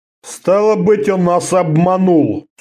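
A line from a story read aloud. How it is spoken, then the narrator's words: Gloomy bearded man's mutter. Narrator (Russian): сумрачно пробурчал бородач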